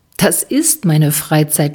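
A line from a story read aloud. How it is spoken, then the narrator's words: Laughing. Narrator (German): lacht Dirk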